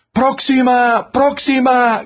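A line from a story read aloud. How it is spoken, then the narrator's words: Man shouting from back. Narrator (Spanish): gritaba un señor que venía al fondo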